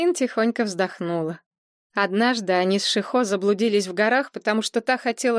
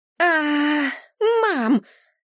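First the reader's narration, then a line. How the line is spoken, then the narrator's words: Unhappy whimpering. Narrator (Russian): Кан Мэйлин несчастно захныкала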